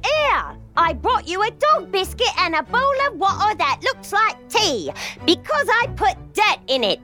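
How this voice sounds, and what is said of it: British accent. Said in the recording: “That's a lovely British accent you have.”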